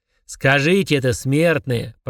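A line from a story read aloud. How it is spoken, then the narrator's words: Growled. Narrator (Russian): прорычал Фрундорок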